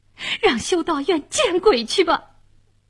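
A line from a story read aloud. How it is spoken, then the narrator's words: Loud yelling. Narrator (Chinese): 卡米尔大声地嚷嚷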